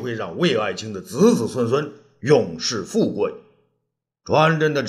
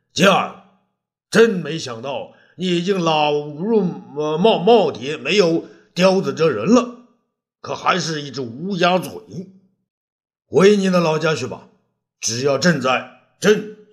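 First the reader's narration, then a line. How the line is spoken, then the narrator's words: Furious anger. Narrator (Chinese): 武帝啊，勃然大怒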